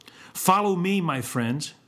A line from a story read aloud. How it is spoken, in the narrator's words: he cried aloud